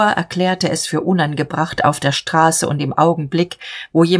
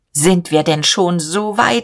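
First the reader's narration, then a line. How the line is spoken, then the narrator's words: Called out. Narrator (German): rief er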